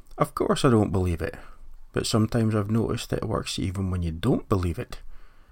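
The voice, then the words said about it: Put-on Danish accent, Niels Bohr. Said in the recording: “What he said, in a Danish accent”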